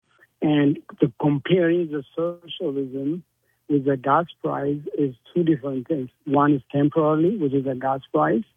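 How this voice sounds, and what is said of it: Egyptian Middle Eastern accent. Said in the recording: “what is your accent? Where is that, Indian? ... I am from Middle East. ... Egypt.”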